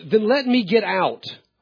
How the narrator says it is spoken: exclaimed

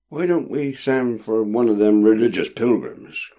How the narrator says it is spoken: cried another

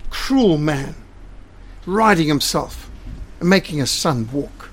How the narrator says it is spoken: the people exclaimed

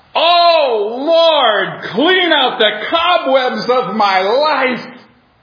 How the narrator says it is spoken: he would shout

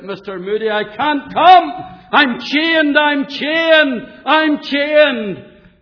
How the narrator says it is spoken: the man shouted out

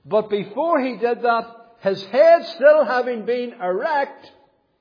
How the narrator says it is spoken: he cried out loud

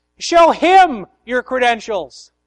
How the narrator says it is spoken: the farmer from the other side of the gate shouted

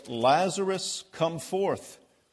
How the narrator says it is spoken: he cried out in a loud voice

